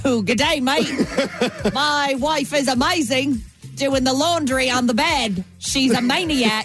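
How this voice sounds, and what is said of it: Put-on Australian accent. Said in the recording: “Was that your Australian accent?”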